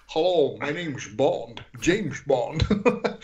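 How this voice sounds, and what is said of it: James Bond impression. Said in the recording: “I can do an impression.”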